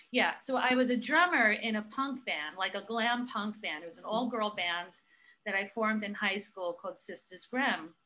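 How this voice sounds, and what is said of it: Brooklyn accent. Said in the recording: “there's my accent, right? ... all of a sudden you're gonna hear my accent come out ... You can take the girl out of Brooklyn, you can't take the Brooklyn out of the girl.”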